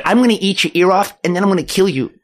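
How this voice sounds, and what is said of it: Imitates another person's voice. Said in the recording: “can do a mimicry impression”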